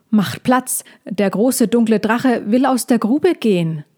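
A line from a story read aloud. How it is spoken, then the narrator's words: Called out. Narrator (German): rief Lila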